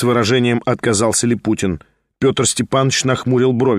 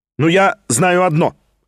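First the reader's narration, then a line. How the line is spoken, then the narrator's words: Sharp sudden addition. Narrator (Russian): резко прибавил он вдруг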